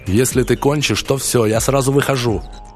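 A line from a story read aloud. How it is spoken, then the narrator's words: Yelling. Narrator (Russian): орал он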